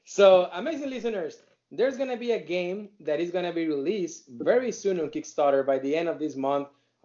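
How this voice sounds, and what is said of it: Non-native English accent. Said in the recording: “my primary is not English, and it's always my accent”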